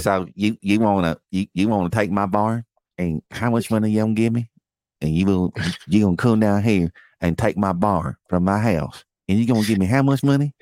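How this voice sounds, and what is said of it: Put-on Southern American accent. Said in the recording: “That's a Pennsylvania accent. ... That's my southern white man accent.”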